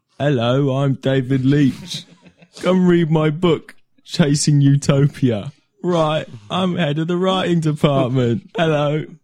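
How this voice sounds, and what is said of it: British-accented impression of David Leitch. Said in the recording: “I'm going to do an impression of David Leitch as a British person.”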